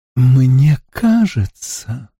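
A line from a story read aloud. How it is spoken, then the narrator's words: Ingratiating, cloying voice. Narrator (Russian): выговорил он таким вкрадчивым, приторным голосом, что хотелось его удавить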